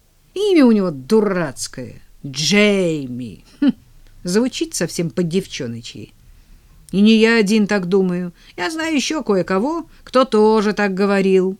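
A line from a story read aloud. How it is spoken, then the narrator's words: Contemptuous tone. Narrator (Russian): презрительным тоном заметил он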